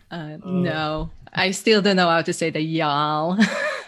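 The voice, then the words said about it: Non-native English accent. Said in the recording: “my accent is not from there, for sure. ... as probably people can hear, English is my second language.”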